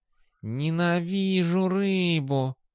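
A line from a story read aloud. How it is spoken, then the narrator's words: Muttered through clenched teeth. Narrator (Russian): процедил кот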